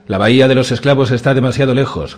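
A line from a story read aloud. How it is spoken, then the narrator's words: Shout. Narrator (Spanish): gritó Ralph el Cojo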